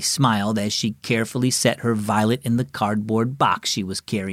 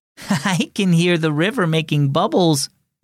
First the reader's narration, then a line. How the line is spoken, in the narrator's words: Mariah giggled